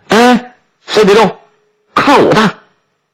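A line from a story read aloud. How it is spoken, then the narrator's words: Joyful shout. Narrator (Chinese): 包顺贵高兴地大叫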